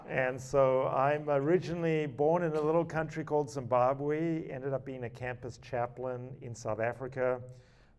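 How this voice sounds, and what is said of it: Speaks with an accent. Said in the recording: “If you're wondering if I have an accent ... We all have accents.”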